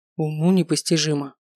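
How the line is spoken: Grumbling. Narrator (Russian): пробурчал полуэльф

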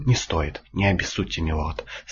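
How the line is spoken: Calm. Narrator (Russian): спокойно сказал Маркифай

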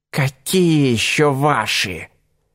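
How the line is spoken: Hunter's cold hiss. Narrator (Russian): Голос охотника ушел в холодное шипение

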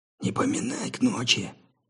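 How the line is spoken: Displeased grumble. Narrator (Russian): недовольно буркнул Джефф

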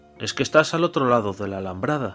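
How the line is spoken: Plain. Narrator (Spanish): dijo Samuel

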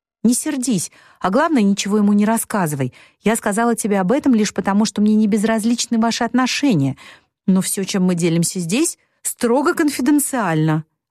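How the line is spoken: Alarmed exclamation. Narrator (Russian): воскликнула Мэг, сильно встревожившись из-за возможных последствий своей неосторожной речи

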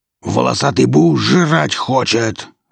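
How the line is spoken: Barking. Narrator (Russian): рявкнул Велес

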